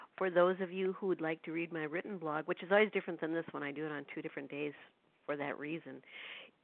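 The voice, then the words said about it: Congested, stuffy-nosed voice. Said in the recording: “if some of you can hear in my voice, yes, I have a cold... my nose is all stuffed now, so my voice sounds a little funny”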